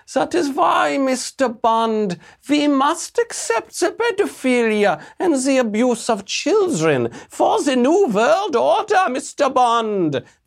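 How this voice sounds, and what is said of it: Bond villain accent. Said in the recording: “sounds exactly like a Bond villain ... This beautiful accent.”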